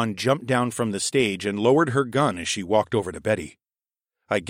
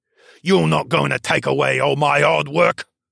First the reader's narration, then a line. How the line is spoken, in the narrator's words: Baxter grumbled